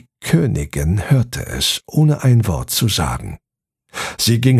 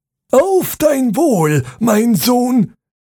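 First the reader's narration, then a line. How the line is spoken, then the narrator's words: King calling out. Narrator (German): rief der König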